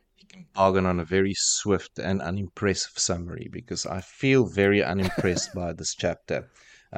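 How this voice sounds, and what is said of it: Disdainful, unimpressed tone. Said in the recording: “I can hear the disdain in your voice.”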